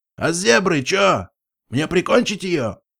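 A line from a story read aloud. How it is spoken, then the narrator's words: Shouted after. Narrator (Russian): крикнул он вдогонку Лайтгрину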